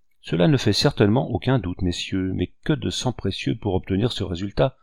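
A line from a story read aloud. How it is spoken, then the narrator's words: Said sadly. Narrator (French): dit Richepense en hochant tristement la tête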